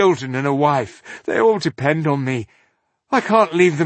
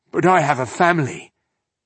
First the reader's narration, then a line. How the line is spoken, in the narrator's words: he mumbled in distress